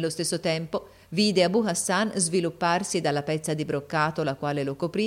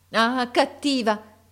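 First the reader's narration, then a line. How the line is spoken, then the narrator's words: Exclaimed. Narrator (Italian): esclamò essa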